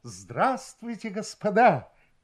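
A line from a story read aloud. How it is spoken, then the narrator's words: Exclamation. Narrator (Russian): воскликнул один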